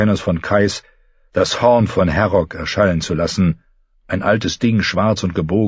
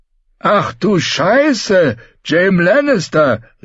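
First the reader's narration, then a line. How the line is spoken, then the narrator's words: Grizzled warrior shouting. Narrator (German): rief ein grauer Krieger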